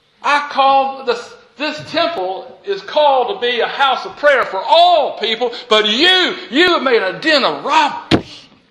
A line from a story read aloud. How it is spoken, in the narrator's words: Jesus shouts